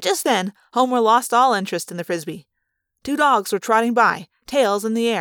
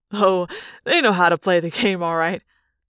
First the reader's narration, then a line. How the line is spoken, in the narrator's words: Jake said with a laugh